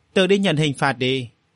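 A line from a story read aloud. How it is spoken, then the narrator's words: Cold expressionless speech. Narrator (Vietnamese): Khuôn mặt lạnh lùng diễm lệ của Vô Cốt không một chút biểu cảm nói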